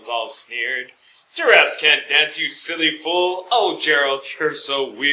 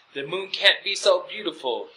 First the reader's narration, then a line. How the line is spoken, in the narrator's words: he whispered with a sigh